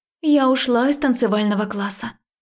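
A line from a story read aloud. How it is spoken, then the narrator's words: Blurted, sharp exhale. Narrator (Russian): выпалила она и резко выдохнула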